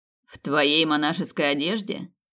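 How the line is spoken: Snide remark. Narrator (Russian): ехидно заметил Томас

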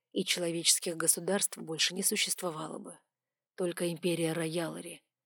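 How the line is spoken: Quiet reply, dragon king. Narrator (Russian): тихо ответил король драконов

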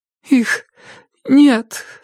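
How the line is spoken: Hoarse voice. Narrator (Russian): сказала она хриплым голосом

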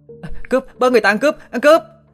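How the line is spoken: Panicked shout. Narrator (Vietnamese): Lại hốt hoảng la lên

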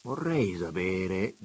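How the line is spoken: Quiet. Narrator (Italian): disse piano

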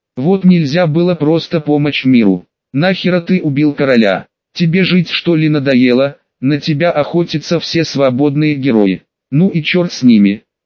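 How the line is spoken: Plain. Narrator (Russian): сказал я ему

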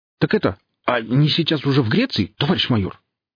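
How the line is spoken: Slight stammer. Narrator (Russian): выдал Нюхель, слегка заикаясь

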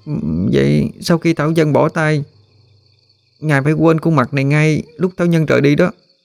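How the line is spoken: Slightly trembling. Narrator (Vietnamese): Hân hơi run run, đề nghị

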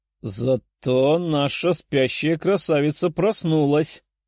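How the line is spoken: Laughing. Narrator (Russian): хохотнула Даша

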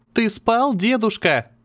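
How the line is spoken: Shouting into ear. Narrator (Russian): прокричала ему в ухо Алехандра

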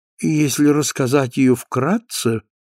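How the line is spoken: Pensive, absent repetition. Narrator (Russian): повторила Клеменси все тем же задумчивым тоном, как будто не обращаясь к собеседнику и не сознавая, что у нее есть слушатели

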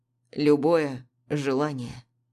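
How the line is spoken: Hoarse. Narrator (Russian): хрипло уточняет он

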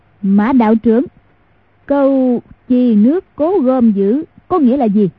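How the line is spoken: Loud voice. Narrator (Vietnamese): lớn tiếng nói

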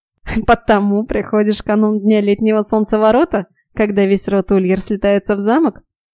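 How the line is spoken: Giggle, hunchback. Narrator (Russian): хихикнул горбун

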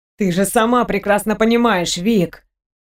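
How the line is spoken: Sigh. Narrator (Russian): вздохнула Розевски

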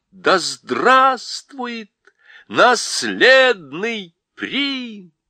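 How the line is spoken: Joyful crowd shouting. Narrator (Russian): радостно кричат

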